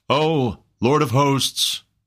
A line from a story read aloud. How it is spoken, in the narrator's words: cried a voice among the crowd